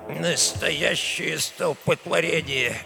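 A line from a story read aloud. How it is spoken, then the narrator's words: Displeased grumble, old man. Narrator (Russian): недовольно бурчал старый Альфонсо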